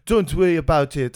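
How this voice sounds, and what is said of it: Poor attempt at French accent. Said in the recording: “I can't do a French accent, but also interestingly, neither can anyone in this film.”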